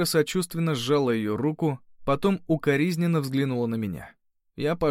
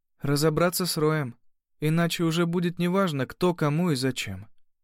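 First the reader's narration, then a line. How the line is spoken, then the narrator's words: Calm. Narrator (Russian): спокойно сказала Кира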